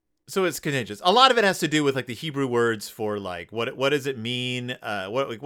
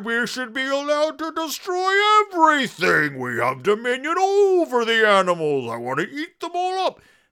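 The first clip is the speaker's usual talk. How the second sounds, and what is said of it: Mocking impression of certain people. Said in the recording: “my impression of those people”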